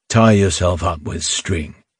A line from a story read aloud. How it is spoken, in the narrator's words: the man answered sullenly